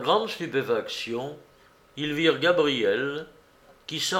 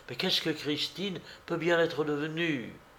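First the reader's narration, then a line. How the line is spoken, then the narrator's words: Moaned. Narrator (French): gémit Jacques Cotentin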